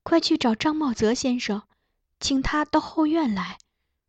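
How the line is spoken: Low voice. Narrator (Chinese): 他低声对我说

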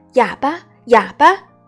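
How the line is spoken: Loud crowd chant. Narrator (Chinese): 高声叫着

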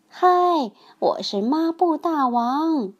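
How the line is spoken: Shouting. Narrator (Chinese): 他口里喊着

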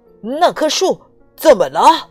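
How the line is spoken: Loud shout. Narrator (Chinese): 他大声喊道

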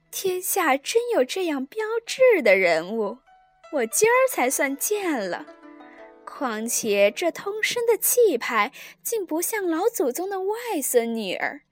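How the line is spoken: Sly laughing. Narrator (Chinese): 这熙凤……阴笑道

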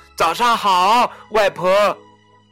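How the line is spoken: Calling out. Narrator (Chinese): 小红帽喊道

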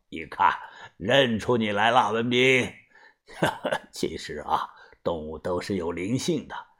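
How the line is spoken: Laughing. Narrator (Chinese): 笑着说

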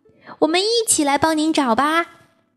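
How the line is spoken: Shouting. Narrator (Chinese): 卡门喊道

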